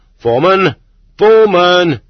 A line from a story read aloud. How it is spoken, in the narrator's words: loudly shouting